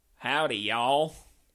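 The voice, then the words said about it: Put-on Texas accent. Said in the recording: “Can you do a Texas accent? ... That's pretty good.”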